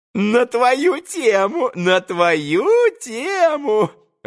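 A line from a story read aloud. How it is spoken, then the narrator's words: Joyful giggling. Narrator (Russian): Радостно хихикал он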